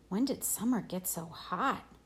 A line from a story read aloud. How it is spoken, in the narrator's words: Jack muttered in my ear